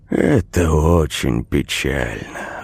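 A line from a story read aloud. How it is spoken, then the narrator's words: Sighing. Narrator (Russian): вздохнул Крайт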